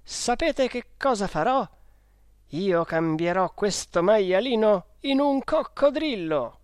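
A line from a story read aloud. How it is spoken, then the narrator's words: Shouted. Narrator (Italian): ho gridato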